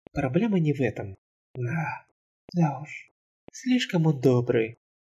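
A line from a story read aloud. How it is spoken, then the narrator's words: Whisper. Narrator (Russian): прошептала Фелли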